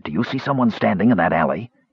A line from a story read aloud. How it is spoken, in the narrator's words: Caramon whispered